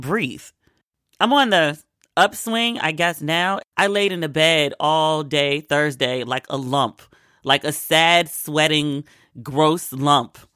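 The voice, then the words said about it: Odd, congested-sounding voice. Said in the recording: “I apologize for my voice because even to me, it sounds weird. So I'm sure it sounds a little odd to y'all as well ... I'm high on cold meds”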